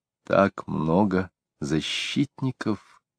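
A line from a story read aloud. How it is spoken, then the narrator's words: Restrained whisper. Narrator (Russian): все еще сдержанно прошептала Квинни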